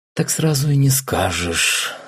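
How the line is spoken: Thoughtful drawl. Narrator (Russian): задумчиво протянул

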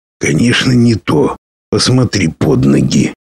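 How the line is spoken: Quiet answer. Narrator (Russian): так же тихо ответил мрак

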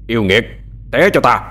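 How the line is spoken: Shouting. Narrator (Vietnamese): Vừa quát, thâm dông

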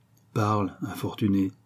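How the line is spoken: Laughing. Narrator (French): dit Fabien en riant

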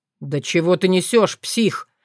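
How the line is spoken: Dangerous growl. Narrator (Russian): Рыкнул куда более опасный и опытный Виктор

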